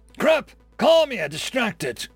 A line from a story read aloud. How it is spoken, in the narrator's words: Dave's voice bellowed out, significantly louder than it had any right to be